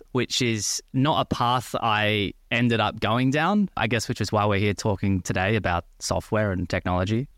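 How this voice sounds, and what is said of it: Australian accent. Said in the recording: “As you can probably tell by the accent, I'm originally from Australia”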